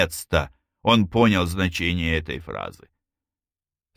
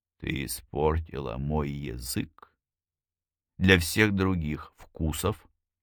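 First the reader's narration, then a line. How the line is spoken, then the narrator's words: Smiling whisper. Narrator (Russian): Его губы изогнулись в улыбке, и он прошептал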